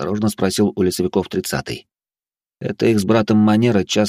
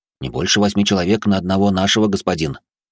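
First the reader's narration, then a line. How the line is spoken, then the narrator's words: Quick reply. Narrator (Russian): быстро ответил проводник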